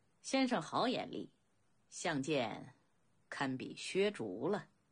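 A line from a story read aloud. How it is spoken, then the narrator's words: Cool faint laugh, displeased. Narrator (Chinese): 公子昂心中颇为不悦，淡淡笑道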